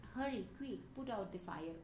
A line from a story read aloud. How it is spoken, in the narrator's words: a lady cried out